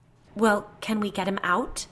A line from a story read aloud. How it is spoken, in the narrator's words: Kate asked, her voice shaking